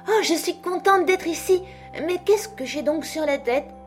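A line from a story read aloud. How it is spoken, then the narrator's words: Dismayed exclamation. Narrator (French): s'exclama-t-elle d'une voix consternée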